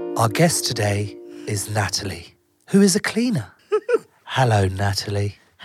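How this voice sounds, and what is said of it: Creepy, exaggerated calm soothing voice. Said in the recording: “so-called calm voice quite weird ... a little bit creepy ... this creepy calm voice”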